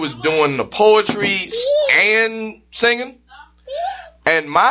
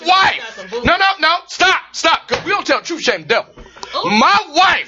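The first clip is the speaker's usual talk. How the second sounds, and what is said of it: Yelling. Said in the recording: “Why are you yelling”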